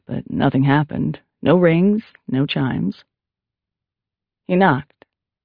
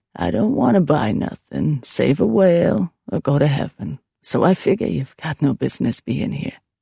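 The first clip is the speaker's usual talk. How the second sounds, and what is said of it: Throaty woman's voice, Down East accent. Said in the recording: “The woman spoke with a notable Down East accent. She also had a throaty voice”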